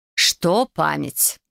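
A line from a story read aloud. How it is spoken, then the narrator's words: Fairy, irritated question. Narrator (Russian): раздраженно спросила фея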